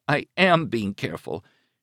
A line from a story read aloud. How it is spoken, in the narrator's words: she said in a shaky, scolding voice that was close to tears